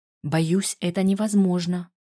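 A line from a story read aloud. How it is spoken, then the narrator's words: Whispered reply. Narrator (Russian): ответила тем же шепотом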